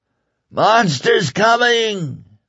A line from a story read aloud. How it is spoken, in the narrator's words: the faint hoarse voice cried